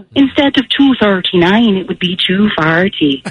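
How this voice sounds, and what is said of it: Good put-on accent. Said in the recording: “That was really, really good. That accent ... Good accent”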